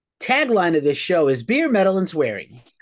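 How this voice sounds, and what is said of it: Imitates another person's voice. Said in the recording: “my Nik impersonation”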